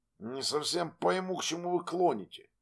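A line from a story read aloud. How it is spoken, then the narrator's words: Quiet voice. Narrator (Russian): тихо проговорил Вилли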